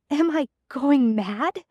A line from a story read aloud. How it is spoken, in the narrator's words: gasps